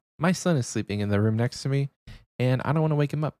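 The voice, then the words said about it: Speaking low and quietly. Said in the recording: “If I'm talking a little low, it's not because I'm trying to hit you with the ASMR.”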